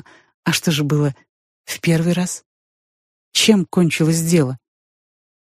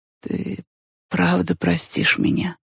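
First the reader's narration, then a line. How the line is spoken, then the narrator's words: Sleepy mumble. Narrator (Russian): пробормотал косообразный сквозь сон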